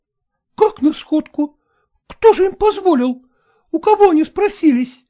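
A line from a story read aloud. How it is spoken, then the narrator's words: Exclaimed. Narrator (Russian): воскликнула Лукерья Ивановна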